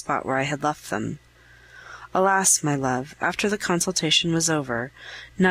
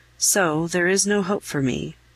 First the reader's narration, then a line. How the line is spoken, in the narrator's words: in a clear, angelic voice